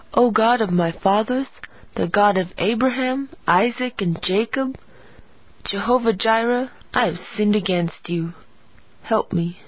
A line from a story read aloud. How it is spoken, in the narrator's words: she whispered